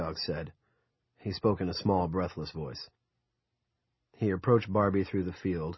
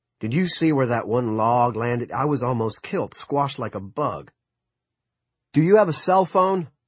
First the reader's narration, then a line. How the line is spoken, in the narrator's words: Barbie had to raise his voice to be heard over the furiously burning pulper